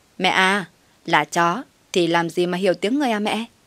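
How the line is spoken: Mocking daughter-in-law. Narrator (Vietnamese): Con dâu trời đánh, nó châm chọc em

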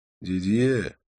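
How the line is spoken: Reproachful sigh. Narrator (Russian): укоризненно вздохнул я

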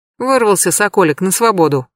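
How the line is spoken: Smirking snort. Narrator (Russian): хмыкнула Анфиса

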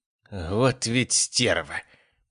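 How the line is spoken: Hissing. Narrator (Russian): прошипел Мот

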